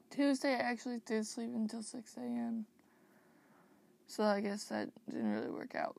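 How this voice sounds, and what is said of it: Tired, sleepy voice. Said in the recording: “I'm so incredibly tired. You guys can probably hear by my voice.”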